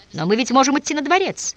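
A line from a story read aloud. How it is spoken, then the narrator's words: Exclaimed in reply. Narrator (Russian): воскликнул в ответ Озарев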